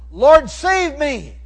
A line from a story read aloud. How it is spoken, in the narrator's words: he cried out